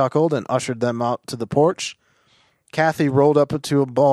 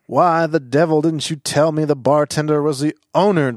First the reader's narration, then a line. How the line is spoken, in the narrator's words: Travis sputtered